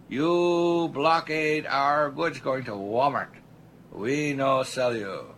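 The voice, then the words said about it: Put-on foreign accent, not very good. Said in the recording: “Maybe my accent wasn't very good.”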